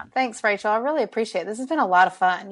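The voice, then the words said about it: Southern US drawl. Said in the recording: “my southern drawl ... I love your Southern drawl”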